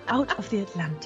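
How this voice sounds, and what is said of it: Soothing put-on Scottish accent. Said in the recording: “going Scottish ... I'm really enjoying this accent. It's very soothing.”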